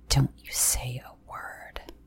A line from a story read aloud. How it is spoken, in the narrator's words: hissed